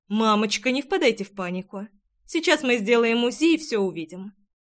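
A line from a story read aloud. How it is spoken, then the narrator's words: Calm doctor's voice. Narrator (Russian): спокойно проговорила врач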